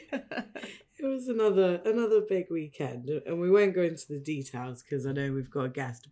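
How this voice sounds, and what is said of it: Husky voice. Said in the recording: “You sound a bit husky,”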